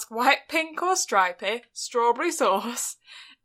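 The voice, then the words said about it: Put-on northern English accent. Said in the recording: “please keep that accent for the rest of this episode... All of the northerners will shoot me.”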